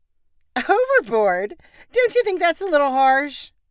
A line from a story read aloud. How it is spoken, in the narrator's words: Grace asked her sister with a laugh